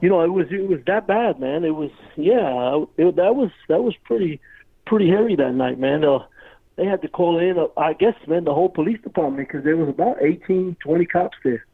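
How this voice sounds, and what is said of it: Brooklyn New York accent. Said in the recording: “with that accent, you can tell you're not from around here ... I was born in Brooklyn, New York”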